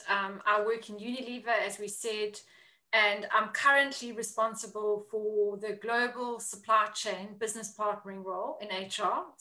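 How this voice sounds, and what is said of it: South African accent. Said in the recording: “I am originally from South Africa, if anybody can pick up the accent.”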